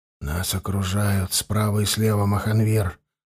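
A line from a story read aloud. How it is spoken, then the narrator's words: Whispered, naga. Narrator (Russian): прошептал второй наг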